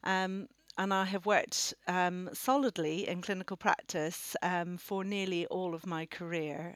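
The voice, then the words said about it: Slight Northern Irish accent. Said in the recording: “I come from Northern Ireland originally. You might be able to pick up my accent ... I've got hints of it that come here and there”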